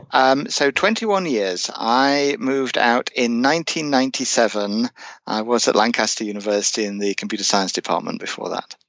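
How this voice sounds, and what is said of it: English accent. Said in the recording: “And an English accent”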